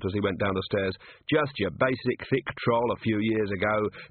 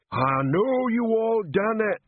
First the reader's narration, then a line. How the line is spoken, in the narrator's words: he was shouting